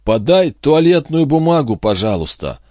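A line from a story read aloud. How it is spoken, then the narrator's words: Muffled, trembling. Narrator (Russian): проговорил Джинглс глухим, дрожащим голосом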